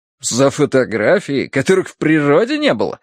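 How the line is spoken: Indignant, admiring exclamation. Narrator (Russian): воскликнул Клайн со смесью возмущения и восхищения находчивостью обманщика

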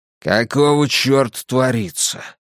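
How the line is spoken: Growl. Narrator (Russian): прорычал бульдог

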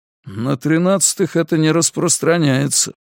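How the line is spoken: Gloomy. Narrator (Russian): мрачно сказал ему Карл

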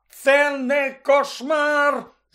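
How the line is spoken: Shrieking. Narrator (Ukrainian): заверещав Рон

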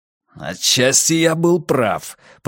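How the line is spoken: Growled. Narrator (Russian): прорычал Каз

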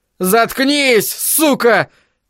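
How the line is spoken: Furious shouting. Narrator (Russian): в бешенстве закричал Айзек

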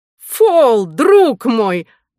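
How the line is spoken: Exclaimed. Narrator (Russian): воскликнул Дедал

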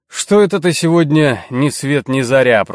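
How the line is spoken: Grumbled. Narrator (Russian): проворчал Варга

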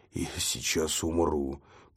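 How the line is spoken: Weak wheeze. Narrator (Russian): просипел Флойд

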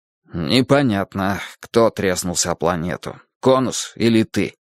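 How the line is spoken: Glum reply. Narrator (Russian): уныло отозвался я

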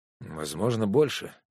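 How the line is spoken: Sighing. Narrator (Russian): вздохнул Макс

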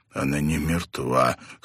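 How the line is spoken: Hoarse strained words. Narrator (Russian): хрипло выдавил он

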